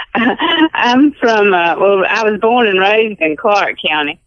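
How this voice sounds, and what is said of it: Authentic Alabama Southern accent. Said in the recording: “that accent you got, and it sounds like you must be authentic ... it is an authentic accent”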